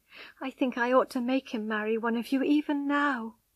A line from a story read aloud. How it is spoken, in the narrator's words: she sobbed